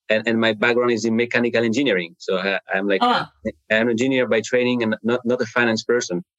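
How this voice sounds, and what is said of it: French accent in English. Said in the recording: “you hear my accent. I'm not from from the U.S. I'm from France originally.”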